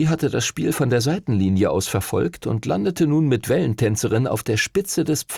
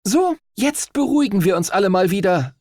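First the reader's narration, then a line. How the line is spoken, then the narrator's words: Captain calling out. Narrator (German): rief die Kapitänin der Himmelsstürmer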